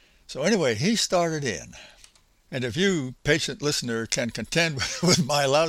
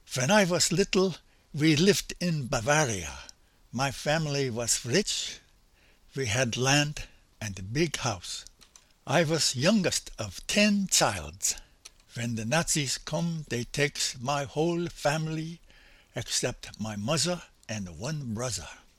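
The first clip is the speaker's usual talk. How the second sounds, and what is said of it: Imitated accent of non-native English speaker. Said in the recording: “my attempt at his accent”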